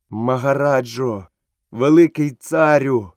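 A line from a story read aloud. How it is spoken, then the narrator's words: Trembling voice. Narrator (Ukrainian): промовив він нарешті тремтячим голосом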